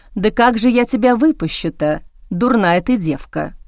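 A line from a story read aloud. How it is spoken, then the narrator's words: Sighing. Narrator (Russian): вздохнула Виолетта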